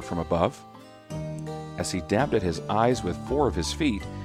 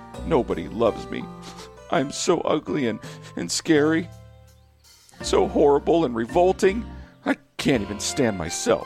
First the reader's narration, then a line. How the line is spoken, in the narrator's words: he sobbed through a burst of tiny tears